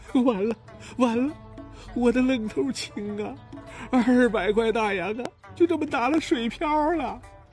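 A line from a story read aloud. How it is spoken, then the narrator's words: Mournful lament. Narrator (Chinese): 吴掌柜哭丧着脸哀叹道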